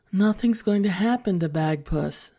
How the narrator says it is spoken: sighed Emily's mother

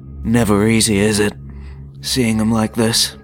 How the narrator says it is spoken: The Annihilator sighed in his baritone voice

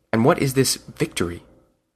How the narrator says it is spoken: the Monkey Man asked in a low tone

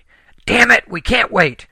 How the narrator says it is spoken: Helen yelled

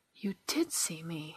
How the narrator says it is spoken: she gasped

